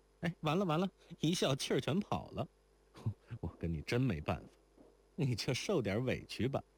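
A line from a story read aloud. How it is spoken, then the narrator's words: Laughing. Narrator (Chinese): 如莲笑了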